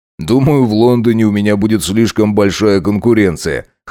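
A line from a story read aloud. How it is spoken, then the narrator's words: Flattered chuckle. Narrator (Russian): хмыкнул он, польщенно улыбнувшись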